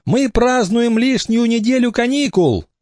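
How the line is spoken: Beaming shout. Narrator (Russian): Максимка сам просиял и крикнул

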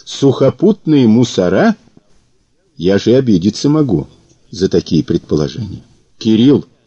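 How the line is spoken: Calm request. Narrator (Russian): попросил спокойно

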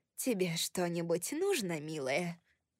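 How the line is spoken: Plain. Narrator (Russian): спросила Николь

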